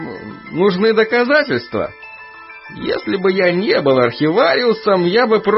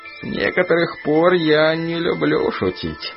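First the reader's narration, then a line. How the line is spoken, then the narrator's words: Muffled old man's voice. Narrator (Russian): глухо отозвался старик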